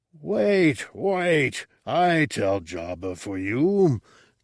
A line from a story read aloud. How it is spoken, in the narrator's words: he cried